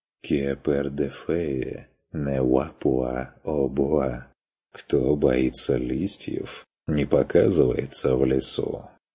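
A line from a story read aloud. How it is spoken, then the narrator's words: Encouraging. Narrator (Russian): подбодрил тот, глядя насмешливо и снисходительно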